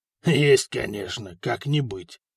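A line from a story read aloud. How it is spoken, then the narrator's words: Dismissive snort. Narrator (Russian): хмыкнул Горан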